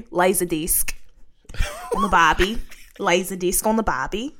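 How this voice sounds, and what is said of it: Poor put-on Australian accent. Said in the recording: “That's my Australian accent... That's not Australia, that's not New Zealand”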